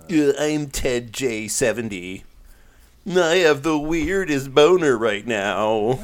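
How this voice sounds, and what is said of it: Nerdy character voice. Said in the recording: “nerd voice ... weird boner voice”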